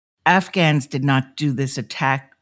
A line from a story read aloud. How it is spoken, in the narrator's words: Reshmina angrily tells